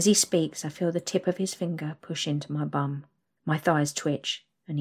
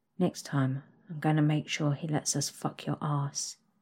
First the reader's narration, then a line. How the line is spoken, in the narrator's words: whispers into my ear